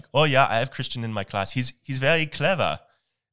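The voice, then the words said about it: Attempted German accent. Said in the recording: “the professor German ... I don't know how to do a German accent. Maybe I shouldn't attempt one, but I'm probably going to.”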